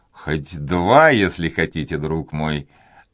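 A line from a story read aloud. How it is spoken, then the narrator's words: Plain. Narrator (Russian): ответил Дожерон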